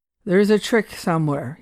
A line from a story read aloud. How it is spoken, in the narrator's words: he muttered to himself